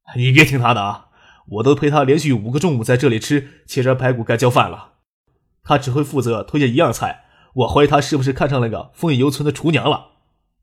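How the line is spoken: Wry, rueful. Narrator (Chinese): 叶剑兵苦笑着说

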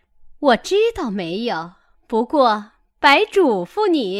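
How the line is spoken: Laughing. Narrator (Chinese): 凤姐儿笑道

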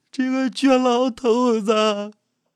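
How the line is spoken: Old woman crying aloud. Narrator (Chinese): 老队长的老伴齐大妈哭出了声

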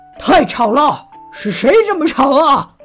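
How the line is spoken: Sudden roar. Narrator (Chinese): 熊爸爸突然吼了起来

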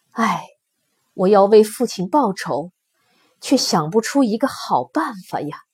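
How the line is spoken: Sighing. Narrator (Chinese): 眉间尺叹口气说

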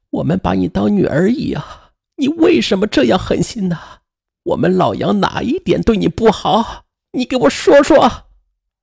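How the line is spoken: Tearful accusation. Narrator (Chinese): 师母也是哭泣的质问她

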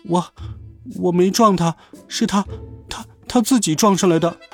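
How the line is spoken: Trembling, stammering child. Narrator (Chinese): 小学生浑身瑟瑟发抖，结结巴巴地说

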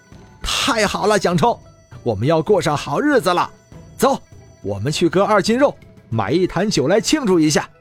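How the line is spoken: Loud, excited. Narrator (Chinese): 华章…大声说道

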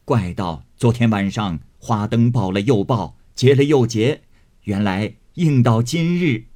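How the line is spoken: Laughing. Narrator (Chinese): 贾母因笑道

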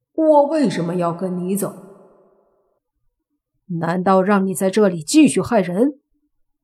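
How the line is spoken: Cold. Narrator (Chinese): 莫凡冷声说道

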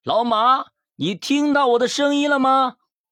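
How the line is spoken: Shouted. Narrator (Chinese): 大喊

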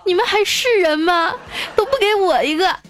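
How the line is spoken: Bursting into tears. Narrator (Chinese): 这儿子…哇一下哭了，说

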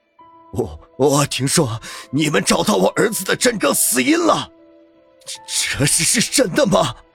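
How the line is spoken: Out of breath. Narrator (Chinese): 方寸 全身还是有点气喘

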